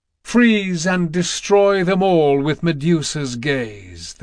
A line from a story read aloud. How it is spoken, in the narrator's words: the goddess thundered